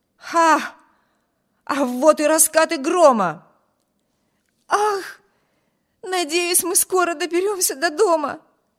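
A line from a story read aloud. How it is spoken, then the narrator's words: Exclaiming. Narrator (Russian): воскликнула Эми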